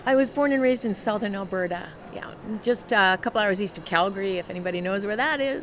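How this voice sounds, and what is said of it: Canadian accent. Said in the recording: “this Canadian accent”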